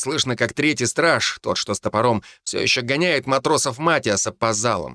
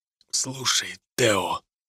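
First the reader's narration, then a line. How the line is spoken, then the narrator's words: Whisper. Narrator (Russian): прошептал он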